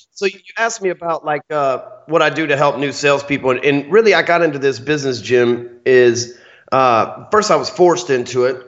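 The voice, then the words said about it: Texan Southern American accent. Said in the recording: “I got this nice old Texan accent, right? As soon as they hear it, they're like, that dude's from the South somewhere.”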